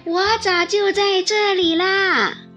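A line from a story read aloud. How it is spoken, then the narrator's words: Calling out. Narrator (Chinese): 刺猬或者他的妻子总是叫道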